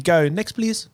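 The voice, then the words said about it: Imitates an Asian shop worker's accent. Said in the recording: “I'm the Asian lady.”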